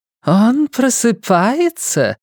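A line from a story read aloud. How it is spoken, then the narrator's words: Flirtatious exclamation. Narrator (Russian): неожиданно кокетливым голоском воскликнула одна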